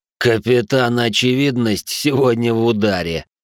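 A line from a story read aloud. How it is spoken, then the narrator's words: Smirking snort. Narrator (Russian): хмыкнул Дик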